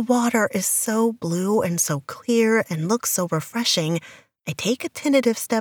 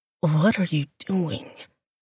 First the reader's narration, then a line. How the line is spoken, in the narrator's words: His voice is strained